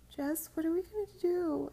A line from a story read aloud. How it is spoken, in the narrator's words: asked Sarah between her sobs